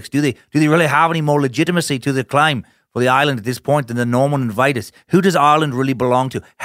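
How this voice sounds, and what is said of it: Poor put-on Irish accent. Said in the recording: “I was unable to completely figure out your Irish accent, but it sounds good to my ears ... even though it's terrible ... keep this accent up before inevitably cracking and falling into some kind of American redneck mishmash”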